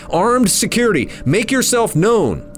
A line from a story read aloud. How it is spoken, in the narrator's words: I shouted